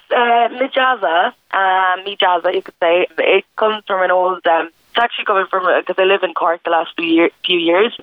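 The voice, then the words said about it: Hoarse voice, head cold. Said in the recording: “You have a little bit of a head cold this morning ... just a little bit hoarse”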